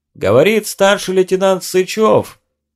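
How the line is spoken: Loud. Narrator (Russian): громко произнес он

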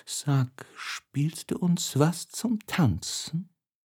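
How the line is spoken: Whisper in ear. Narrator (German): Fernand flüsterte ihm ins Ohr

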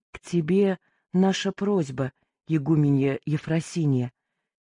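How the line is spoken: Quiet. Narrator (Russian): тихо сказала Гордислава

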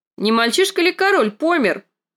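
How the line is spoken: Shouted. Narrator (Russian): крикнула она

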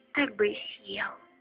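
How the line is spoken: Whisper in ear. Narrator (Russian): прошептал он ей на ухо

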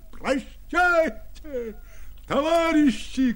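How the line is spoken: Shouting from above. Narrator (Russian): кричал он им сверху

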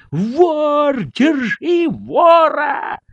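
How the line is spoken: Sudden shouting indoors. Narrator (Russian): закричали вдруг в доме

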